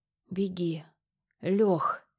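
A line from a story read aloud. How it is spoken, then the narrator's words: Wheezing, gurgling. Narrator (Russian): Прохрипел он, издав горлом жуткий булькающий звук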